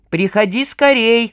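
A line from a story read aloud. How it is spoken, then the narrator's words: Calling out after someone. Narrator (Russian): вслед ей крикнул Вестник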